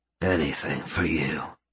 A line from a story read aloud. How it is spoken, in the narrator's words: he mumbled as he started to fade